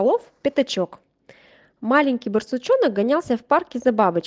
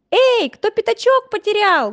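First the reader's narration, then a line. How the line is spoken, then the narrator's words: Loud child's shout. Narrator (Russian): громко закричал малыш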